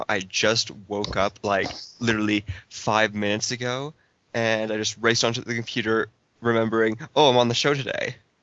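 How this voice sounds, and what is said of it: Dead, monotone sleepy voice. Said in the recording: “sorry for my dead monotone voice. I'm pretty much a zombie right now.”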